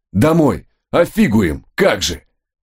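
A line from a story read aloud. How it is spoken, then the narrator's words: Hoarse rasp. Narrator (Russian): прохрипел я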